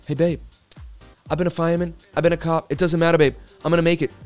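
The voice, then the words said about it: Imitates another person's voice, Boston accent. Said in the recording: “We do Mark Wahlberg.”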